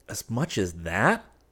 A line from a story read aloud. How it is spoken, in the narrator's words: I exclaimed, greatly elated